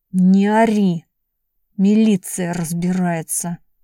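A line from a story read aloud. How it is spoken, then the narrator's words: Muttered through clenched teeth. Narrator (Russian): сквозь зубы бормотал Женька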